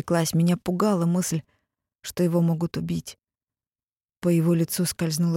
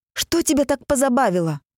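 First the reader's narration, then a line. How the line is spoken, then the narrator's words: Nearly shouting. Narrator (Russian): почти закричала я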